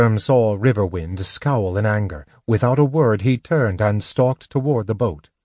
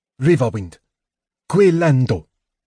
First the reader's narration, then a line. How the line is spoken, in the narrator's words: Goldmoon said sharply